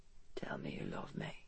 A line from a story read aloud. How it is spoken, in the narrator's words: he whispered